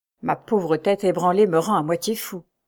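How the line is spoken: Murmured. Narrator (French): murmura-t-il

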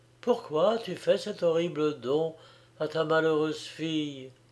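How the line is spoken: Weak faint voice. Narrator (French): dit Béatrix d'une voix faible

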